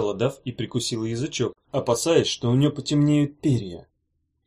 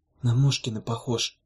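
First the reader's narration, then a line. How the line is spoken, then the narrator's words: Whispered. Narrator (Russian): шепнула Дафна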